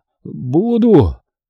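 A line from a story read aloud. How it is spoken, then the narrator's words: Hoarse wheeze. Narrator (Russian): прохрипел мужик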